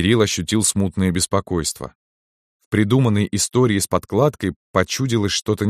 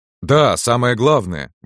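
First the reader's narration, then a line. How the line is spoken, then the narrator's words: Exclaiming old man. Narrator (Russian): воскликнул дед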